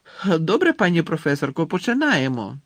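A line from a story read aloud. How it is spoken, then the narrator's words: Exclaimed. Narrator (Ukrainian): вигукнув Рон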